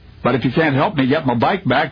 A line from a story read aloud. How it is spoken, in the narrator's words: the child blurted through angry tears